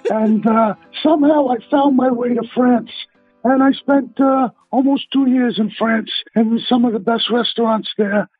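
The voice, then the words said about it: Brooklyn accent. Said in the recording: “I'm born in Brooklyn, if you can't tell by my accent.”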